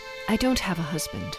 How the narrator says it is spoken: mumbled

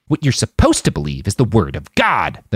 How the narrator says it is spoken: the man snarled

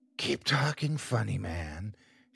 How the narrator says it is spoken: she whispered

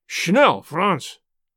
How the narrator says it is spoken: cried a voice

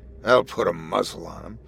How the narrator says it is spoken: Goatbeard chuckled, proud of himself

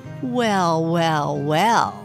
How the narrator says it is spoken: he drawled, his voice dripping with sarcasm

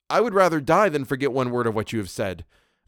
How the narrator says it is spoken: I blurted out while my cheeks burned

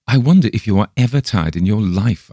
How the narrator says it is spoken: I exclaim by and by, half peevishly

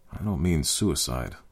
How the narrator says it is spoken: Bob murmured under his breath

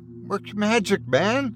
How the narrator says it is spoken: he sputtered

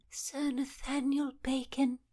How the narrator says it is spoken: Winifred Gresham softly uttering

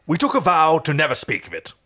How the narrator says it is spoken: Rigel stated pompously

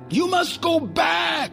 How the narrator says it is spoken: Skullbone cried

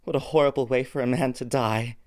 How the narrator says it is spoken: He sighed

